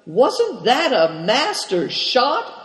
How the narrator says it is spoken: cried Cao Cheng eagerly

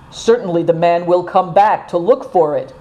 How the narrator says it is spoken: said Christian

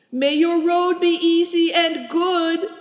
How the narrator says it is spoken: cried Seven Stars

